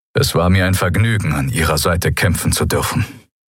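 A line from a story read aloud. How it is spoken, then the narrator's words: Plain. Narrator (German): sagte er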